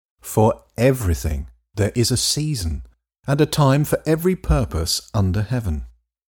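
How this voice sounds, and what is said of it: English accent. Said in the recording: “coming to you in an English accent”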